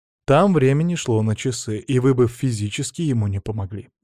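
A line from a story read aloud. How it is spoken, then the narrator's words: Calm reply. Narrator (Russian): спокойно ответил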